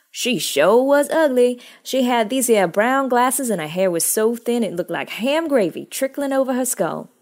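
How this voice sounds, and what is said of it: Put-on Southern US accent. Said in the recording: “I can't read that without the accent. It's so Southern.”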